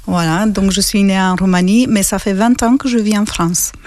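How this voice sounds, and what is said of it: Slight Romanian accent in French. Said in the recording (French): “ta voix avec un petit accent ... ce petit accent vient de la Roumanie”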